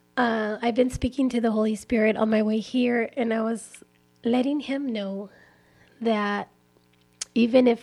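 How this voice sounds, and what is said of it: Raspy, slightly hoarse voice. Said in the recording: “As you can tell, my voice is a little raspy. I feel a little under the weather... my voice is a little raspy and not sounding its best”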